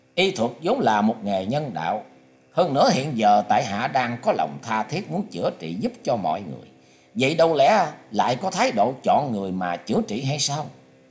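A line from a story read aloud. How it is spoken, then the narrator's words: Laughing loudly. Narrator (Vietnamese): Lữ Tùng Lâm cất tiếng cười to nói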